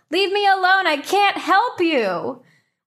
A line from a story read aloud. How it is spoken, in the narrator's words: yell